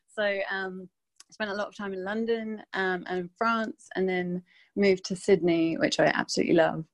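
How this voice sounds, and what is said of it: Mixed English accent. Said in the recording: “I'm from England originally, but I think my accent's a bit of a mess these days because I've lived in quite a few different countries.”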